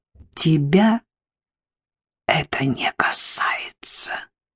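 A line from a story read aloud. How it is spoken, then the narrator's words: Hissing mother. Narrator (Russian): прошипела мама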